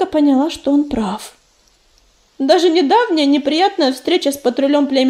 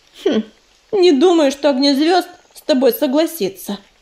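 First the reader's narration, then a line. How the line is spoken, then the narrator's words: Skeptical grunt. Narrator (Russian): хмыкнул ежевика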